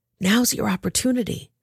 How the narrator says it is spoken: David's men whispered to him

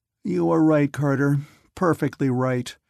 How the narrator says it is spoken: Mantell said with a groan

